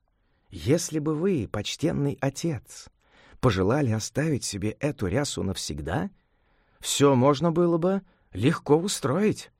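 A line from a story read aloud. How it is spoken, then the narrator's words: Young monk, quiet. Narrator (Russian): молодой монах по прозвищу Гуанчжу, смекалистый, тихо сказал ему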